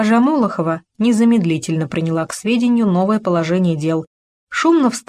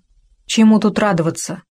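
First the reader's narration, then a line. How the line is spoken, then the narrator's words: Grumbled. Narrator (Russian): буркнул Антон Петрович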